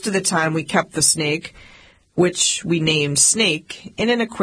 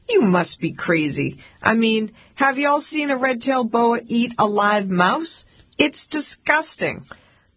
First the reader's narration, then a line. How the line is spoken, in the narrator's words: laugh and say